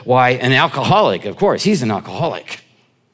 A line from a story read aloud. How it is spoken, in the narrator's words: Another woman, another stewardess who had been working that section, said in a rather scornful voice, she said